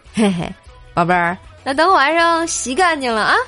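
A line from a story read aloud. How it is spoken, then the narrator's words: Mischievous grin. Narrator (Chinese): 我妈就坏笑着说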